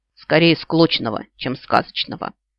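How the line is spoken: Grumble. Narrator (Russian): пробурчала я

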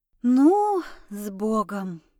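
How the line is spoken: Silent inner exhale. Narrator (Russian): мысленно выдохнула я

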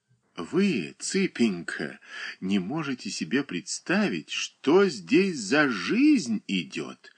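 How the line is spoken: Whispering. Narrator (Russian): шептала между тем Марья Николаевна

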